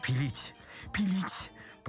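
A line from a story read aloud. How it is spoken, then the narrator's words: Babbling mumble. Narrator (Russian): пролепетал Паниковский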